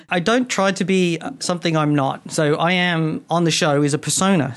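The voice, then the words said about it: Distinct accent. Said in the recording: “your distinct accent”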